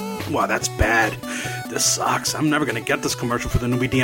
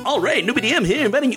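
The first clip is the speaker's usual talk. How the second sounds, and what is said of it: Exaggerated radio announcer voice. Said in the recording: “Best radio voice. ... Oh wow, that's terrible.”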